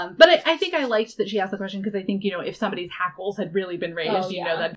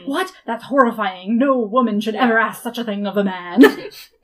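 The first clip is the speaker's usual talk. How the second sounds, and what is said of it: Mock misogynist man's voice. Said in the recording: “your weird misogynist accent there ... this is what a misogynist sounds like”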